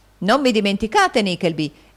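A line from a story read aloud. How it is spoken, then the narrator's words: Gentleman's exclamation. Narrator (Italian): esclamò un gentiluomo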